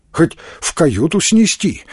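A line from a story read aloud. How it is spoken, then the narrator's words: Hesitant suggestion. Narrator (Russian): неуверенно предложил кто-то из сидящих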